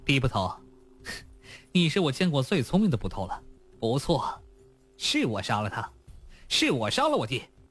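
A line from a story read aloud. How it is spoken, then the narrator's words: Manic laughter. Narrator (Chinese): 娄天凡突然笑了起来，他笑得疯狂 道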